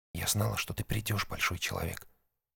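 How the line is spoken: Whisper. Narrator (Russian): прошептала она

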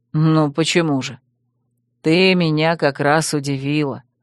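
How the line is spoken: Soft, smiling. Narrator (Russian): мягко улыбнулся Таран

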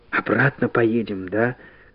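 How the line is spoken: Frightened whisper. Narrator (Russian): Испуганно она спросила шепотом

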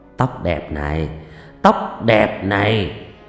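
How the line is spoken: Muttering. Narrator (Vietnamese): anh chồng mồm lẩm bẩm

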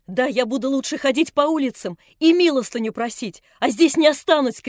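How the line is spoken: Shouting while sobbing. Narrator (Russian): кричала она, рыдая

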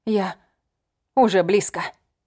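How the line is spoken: Breathed out. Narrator (Russian): выдохнула

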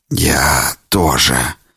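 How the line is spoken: Hoarse whisper. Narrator (Russian): хрипло прошептал Херб

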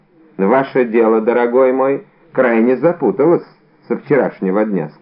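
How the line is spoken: Plain. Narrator (Russian): сказал комиссар

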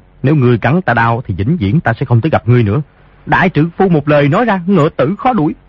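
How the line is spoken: Lowered ticklish voice. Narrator (Vietnamese): Di Tiểu Bảo cảm thấy nhột nhạt không sao chịu nổi, liền hạ giọng nói

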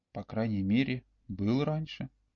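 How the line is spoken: Whispered reply. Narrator (Russian): также шепотом ответил Олег

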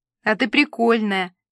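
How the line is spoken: Giggling. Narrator (Russian): хихикнула Нюся

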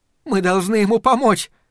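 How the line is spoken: Repeated, then sobbing. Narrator (Russian): повторила Перион и разрыдалась

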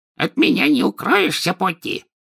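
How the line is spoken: Indignant. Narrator (Russian): возмущенно сообщил он

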